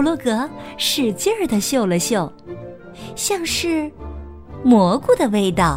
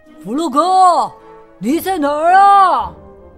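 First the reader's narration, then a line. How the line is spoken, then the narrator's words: Anxious shout. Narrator (Chinese): 老鼠着急的大喊道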